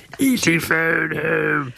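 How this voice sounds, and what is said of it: E.T. voice with British accent. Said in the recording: “you've given E.T. a British accent.”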